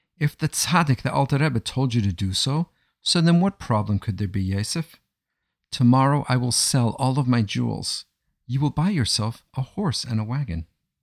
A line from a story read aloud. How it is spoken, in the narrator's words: said his wife cheerfully